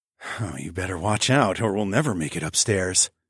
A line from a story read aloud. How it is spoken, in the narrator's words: I breathed out